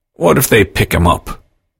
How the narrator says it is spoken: McNeil asked wearily

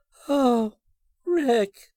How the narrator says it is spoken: said huskily

